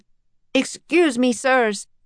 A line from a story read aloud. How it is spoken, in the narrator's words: he shouted